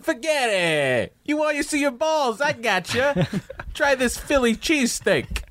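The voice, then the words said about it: Put-on South Philly Italian accent. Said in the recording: “I don't know why he has an accent, but he does. ... It's a South Philly Italian accent”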